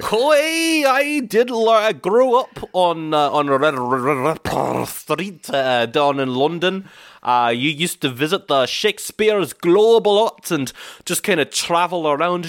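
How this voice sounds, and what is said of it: Exaggerated, poor fake British accent. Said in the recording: “you're doing quite enough of one ... that's quite a terrible accent, where are you now, Scottish? ... It's honestly quite distracting ... terrible fucking Americans doing British accents”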